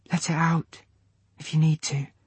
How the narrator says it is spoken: she whispered

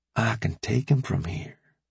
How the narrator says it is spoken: Rambo breathed into AJ's ear ever so quietly

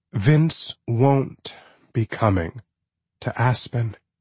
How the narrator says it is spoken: she'd said slowly and sadly, almost in shock, as if reading aloud the headline of a bizarrely tragic news story

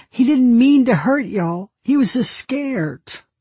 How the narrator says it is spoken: she pleads

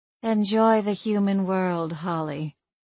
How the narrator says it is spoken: she purred

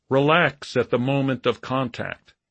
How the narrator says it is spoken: he called out

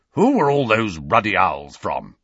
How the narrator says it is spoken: he growled

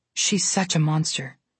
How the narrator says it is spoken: Alex said under her breath

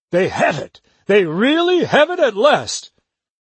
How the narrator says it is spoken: he cried out

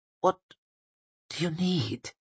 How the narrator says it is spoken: He muttered, his voice very small

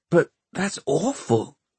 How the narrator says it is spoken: Tom gasped

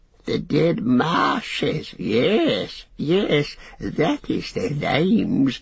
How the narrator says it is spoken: he cackled

